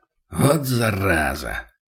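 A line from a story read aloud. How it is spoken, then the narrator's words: Muttered. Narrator (Russian): пробормотал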